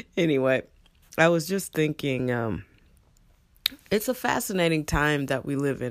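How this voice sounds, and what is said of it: Deep, low morning voice. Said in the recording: “You're the first people I'm talking to this morning, and you can probably tell because my voice has a little bass in it.”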